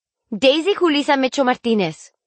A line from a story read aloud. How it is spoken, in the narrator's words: she roared in Spanish